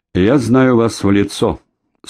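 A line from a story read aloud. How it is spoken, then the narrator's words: Dry, curt. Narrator (Russian): сухо проговорил шакал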